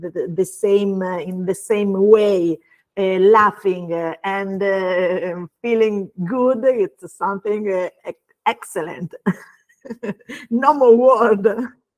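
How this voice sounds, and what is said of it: Non-native accented English. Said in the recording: “your beautiful accent. We love your accent. Your accent when you speak English is so beautiful to our ears”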